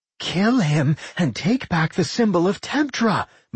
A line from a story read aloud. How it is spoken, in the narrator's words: Michelle screamed